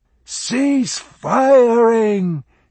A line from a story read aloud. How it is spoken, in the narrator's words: he shouted